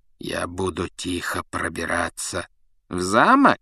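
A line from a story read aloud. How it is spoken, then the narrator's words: Insinuating question. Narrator (Russian): вкрадчиво переспросил Снег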